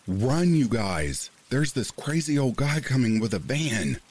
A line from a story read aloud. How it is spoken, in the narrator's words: our buddies ran fast as fuck, yelling